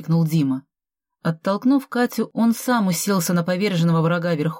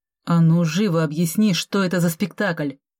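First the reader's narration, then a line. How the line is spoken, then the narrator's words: Growled. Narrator (Russian): рыкнул Дима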